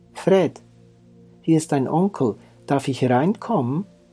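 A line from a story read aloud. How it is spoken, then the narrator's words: Cautious call. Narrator (German): rief vorsichtig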